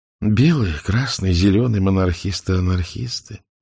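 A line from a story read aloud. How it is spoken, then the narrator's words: Soft, smiling woman. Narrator (Russian): мягко улыбнулась Анна Викторовна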